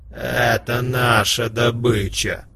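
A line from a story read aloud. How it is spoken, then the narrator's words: Angry growl. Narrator (Russian): злобно прорычал варг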